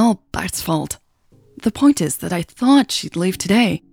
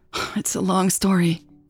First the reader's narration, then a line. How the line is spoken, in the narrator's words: Natalie sighed in frustration